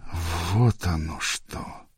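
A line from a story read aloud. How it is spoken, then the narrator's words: Drawn-out. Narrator (Russian): протянул Джаэль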